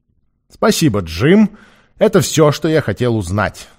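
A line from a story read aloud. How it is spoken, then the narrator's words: Loud. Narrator (Russian): сказал он громко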